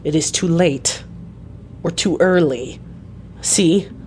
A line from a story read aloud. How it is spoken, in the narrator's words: said sternly